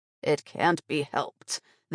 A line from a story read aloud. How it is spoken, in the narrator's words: the old man grunted